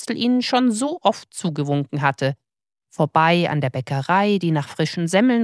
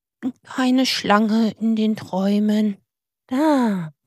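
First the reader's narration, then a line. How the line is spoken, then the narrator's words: Happy sigh. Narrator (German): dann seufzte er glücklich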